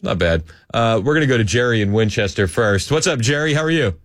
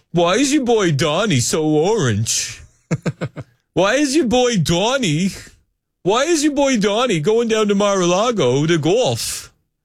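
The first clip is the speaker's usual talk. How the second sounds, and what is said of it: Put-on New Jersey accent. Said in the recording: “That's my best New Jersey accent. Is that pretty good? ... It's not bad.”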